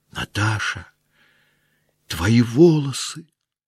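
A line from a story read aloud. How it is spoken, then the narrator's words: Whispering. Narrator (Russian): прошептала Соня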